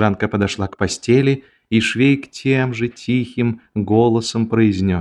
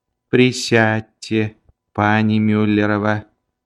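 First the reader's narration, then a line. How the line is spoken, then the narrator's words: Mysterious, solemn voice. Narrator (Russian): Его голос звучал таинственно и торжественно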